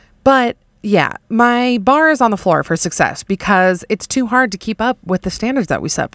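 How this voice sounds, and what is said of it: Usual voice. Nothing is said of it.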